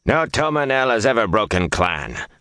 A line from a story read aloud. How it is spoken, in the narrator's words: Han barked